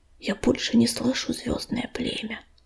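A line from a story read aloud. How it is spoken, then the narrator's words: Whisper. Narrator (Russian): прошептала она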